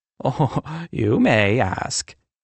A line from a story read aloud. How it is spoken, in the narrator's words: Angel replied, chuckling